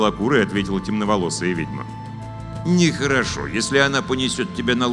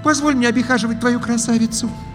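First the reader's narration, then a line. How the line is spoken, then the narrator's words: Pleading young witch. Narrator (Russian): взмолилась Белокул, белокурая ведьмочка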